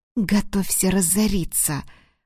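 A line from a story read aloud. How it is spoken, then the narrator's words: Cat-girl hissing. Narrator (Russian): прошипела девушка-кошка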